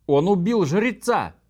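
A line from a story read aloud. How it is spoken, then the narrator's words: Confused wailing women. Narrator (Russian): завопили женщины в замешательстве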